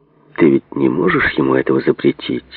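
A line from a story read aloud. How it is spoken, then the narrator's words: Unfriendly tone. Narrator (Russian): ответил Ньюман далеко не ласковым тоном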